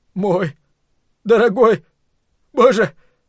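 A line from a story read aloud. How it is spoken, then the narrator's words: Hoarse rasp. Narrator (Russian): прохрипел Ллойд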